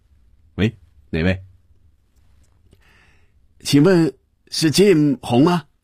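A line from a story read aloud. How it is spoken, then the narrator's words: Slightly accented voice. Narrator (Chinese): 似乎还有些口音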